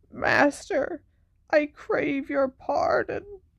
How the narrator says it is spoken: croaked the man kneeling on the floor

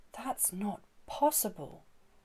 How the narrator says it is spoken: Uncle Jez whispered

